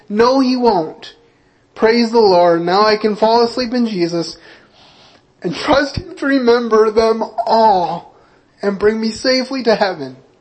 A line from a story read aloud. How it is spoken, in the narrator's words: A smile came over the face of the dying believer as he exclaimed joyfully